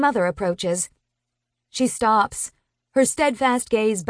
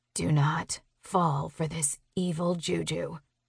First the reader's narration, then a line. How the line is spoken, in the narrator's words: Delia whispers